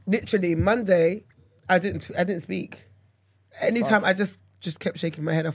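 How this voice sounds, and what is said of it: Hoarse, recovering voice. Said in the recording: “down bad from hay fever and... My voice is coming back though ... My voice starts to go”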